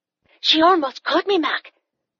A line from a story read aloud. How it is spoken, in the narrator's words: she said breathlessly